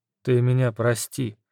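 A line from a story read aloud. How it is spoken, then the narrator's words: Quiet. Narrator (Russian): тихо произнес Ольгерд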